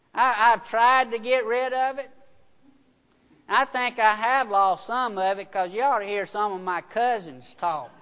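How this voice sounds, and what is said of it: Noticeable rural country accent. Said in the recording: “I have not lost my accent, as you can tell. I've been made fun of how I talk ... They country.”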